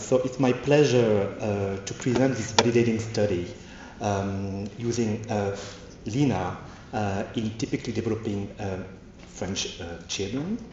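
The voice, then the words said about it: French accent. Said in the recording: “another foreign accent. This is a French accent”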